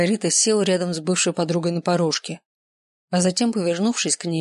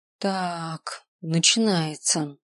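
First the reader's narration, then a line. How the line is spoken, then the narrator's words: Drawled. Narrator (Russian): протянул Марго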